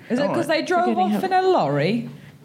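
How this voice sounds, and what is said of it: Put-on English accent. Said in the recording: “Stop practicing your English accent ... this is my impression of Nisha around the house”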